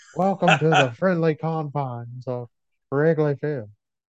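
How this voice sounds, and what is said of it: Harry Caray impression. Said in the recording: “do a Harry Carey impression”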